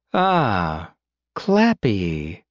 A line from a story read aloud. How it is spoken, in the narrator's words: Helen said lazily, almost disappointed